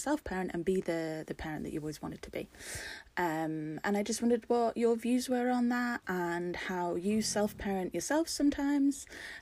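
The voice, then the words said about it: British accent, English or Scottish. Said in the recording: “I love the accent ... Is that Scottish? Am I hearing Scottish? ... I do believe that's an English accent ... It sounded Scottish to me”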